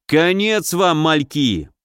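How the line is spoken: Growling. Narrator (Russian): прорычал широкоплечий

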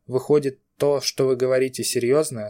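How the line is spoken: Plain. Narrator (Russian): спросила она

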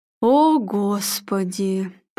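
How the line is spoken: Groaning. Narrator (Russian): простонал Арнольд

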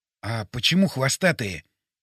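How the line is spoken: Quiet question. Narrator (Russian): тихо спросил я

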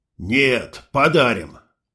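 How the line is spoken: Dismissive snort. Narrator (Russian): фыркнул он

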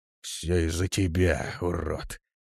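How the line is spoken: Growled. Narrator (Russian): прорычал он

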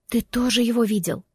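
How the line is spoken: Whispered question. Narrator (Russian): Шепотом спрашиваю у кота

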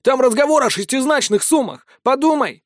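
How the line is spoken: Shouted after someone. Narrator (Russian): крикнул мне в спину Чефир

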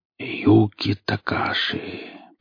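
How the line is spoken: Drowsy whisper falling asleep. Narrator (Russian): прошептал сталкер, проваливаясь в сон

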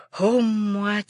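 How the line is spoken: Quiet. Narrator (Russian): сказал он тихо

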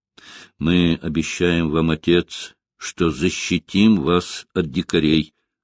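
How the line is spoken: Plain. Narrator (Russian): сказал Рокоссовский

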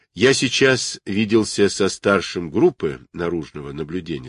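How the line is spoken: Plain. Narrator (Russian): сказал Кличко

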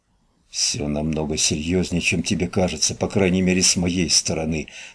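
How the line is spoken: Broken, agitated whisper. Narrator (Russian): прошептал он прерывисто, все сильнее теряя самообладание

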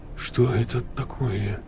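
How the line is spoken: Whisper. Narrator (Russian): прошептал Борис

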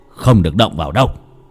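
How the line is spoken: Sharp shout. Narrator (Vietnamese): ông thầy quát ngay

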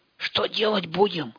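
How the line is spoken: Whispered question. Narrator (Russian): шепотом спросил Растафарыч

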